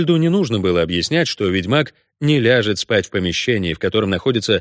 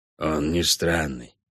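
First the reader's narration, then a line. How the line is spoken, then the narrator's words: Quiet reply. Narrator (Russian): так же тихо ответил Кобальд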